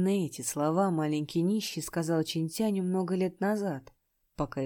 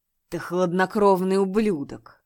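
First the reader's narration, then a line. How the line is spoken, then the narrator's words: Frightened demon's desperate growl. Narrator (Russian): Испугавшись морозной ауры, дарованной ледяным озером, демон попытался сбежать, но, угодив в ледяную ловушку, он отчаянно зарычал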